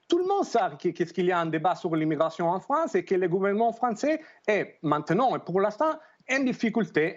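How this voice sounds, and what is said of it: Italian accent speaking French. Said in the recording (French): “merci pour cette lecture du côté italien ... Ça fait du bien d'entendre votre accent”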